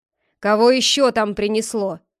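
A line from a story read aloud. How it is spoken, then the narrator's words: Old man shouting loudly. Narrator (Russian): Старичок громко закричал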